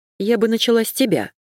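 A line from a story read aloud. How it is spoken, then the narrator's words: Angry. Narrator (Russian): сказала зло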